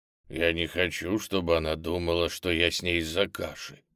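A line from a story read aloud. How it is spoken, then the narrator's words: Quiet. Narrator (Russian): тихо сказал Ниссы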